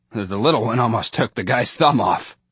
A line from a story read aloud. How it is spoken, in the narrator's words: With a chuckle, he added